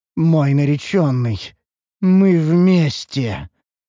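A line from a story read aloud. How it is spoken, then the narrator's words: Otherworldly voice. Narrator (Russian): заявила эльфийка потусторонним голосом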